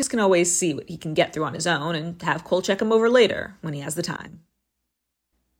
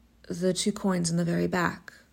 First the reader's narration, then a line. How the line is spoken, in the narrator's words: the man says softly